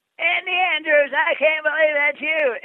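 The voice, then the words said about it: Imitates another person's voice. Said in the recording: “that was a good impersonation.”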